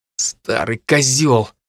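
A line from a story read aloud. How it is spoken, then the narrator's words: Strained utterance. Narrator (Russian): выдавил Дарт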